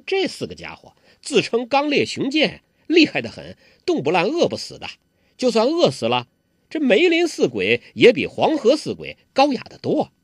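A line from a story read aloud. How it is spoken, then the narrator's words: Giggling. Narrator (Chinese): 黄蓉咯咯一笑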